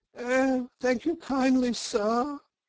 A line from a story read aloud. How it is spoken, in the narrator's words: said Toad in a feeble voice